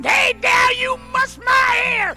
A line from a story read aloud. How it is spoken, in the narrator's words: he screamed